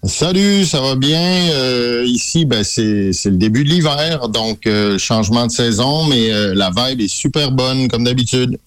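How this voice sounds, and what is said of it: Québécois French accent. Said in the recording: “C'est du côté de Québec ... dont l'accent va remplir pendant quelques minutes”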